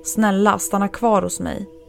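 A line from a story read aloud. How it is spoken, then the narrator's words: Panicked outburst. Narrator (Swedish): utbrast han i panik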